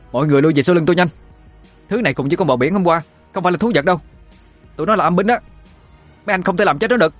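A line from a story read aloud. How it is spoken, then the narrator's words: Loud shouting. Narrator (Vietnamese): Chi quát lớn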